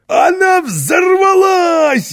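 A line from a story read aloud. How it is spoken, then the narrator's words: Delighted shout. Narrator (Russian): в восторге закричал Карлсон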